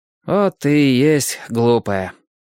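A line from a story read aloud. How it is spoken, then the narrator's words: Sighing. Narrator (Russian): вздохнул Лесь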